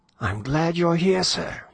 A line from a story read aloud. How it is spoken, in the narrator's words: he exclaimed breathlessly